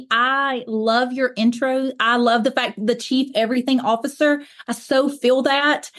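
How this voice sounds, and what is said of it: Southern US accent. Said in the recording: “if my accent does not give it away, I am based in Alabama, the southeast of the United States. Most people guess that I'm from the South pretty quickly.”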